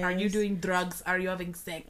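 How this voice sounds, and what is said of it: Put-on Russian accent. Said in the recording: “Why'd you have an accent? Like a Russian accent?”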